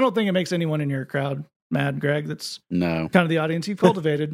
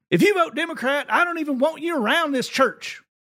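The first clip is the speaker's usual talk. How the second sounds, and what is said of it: Put-on Tennessee accent. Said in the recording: “I'm going to do the accent ... I can make fun of someone from Tennessee's accent”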